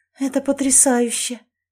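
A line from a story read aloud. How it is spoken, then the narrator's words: Breathless awe. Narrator (Russian): выдохнула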